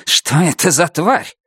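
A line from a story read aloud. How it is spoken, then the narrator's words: Hissing. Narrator (Russian): Потока, который зашипел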